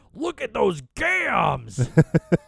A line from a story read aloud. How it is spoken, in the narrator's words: Bobby Heenan shouted